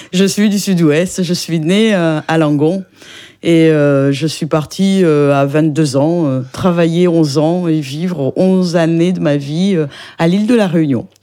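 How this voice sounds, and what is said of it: French south-western regional accent. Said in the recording (French): “on l'aurait entendu à votre accent ... vous êtes du Sud-Ouest ?”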